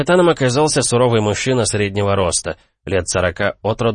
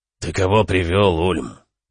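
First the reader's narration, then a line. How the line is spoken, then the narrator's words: Gloomy question. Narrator (Russian): мрачно поинтересовался капитан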